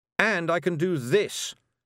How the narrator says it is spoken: Tiffany shouted

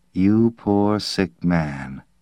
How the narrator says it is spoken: The woman said quietly

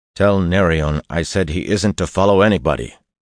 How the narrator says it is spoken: Perrin told her sharply

